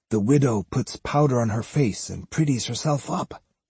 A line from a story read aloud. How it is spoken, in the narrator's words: whispered gravely